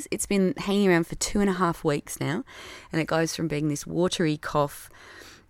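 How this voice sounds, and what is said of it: Voice affected by a cold. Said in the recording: “You can probably hear in my voice that I've still got the tail end of that cold, cough, virus”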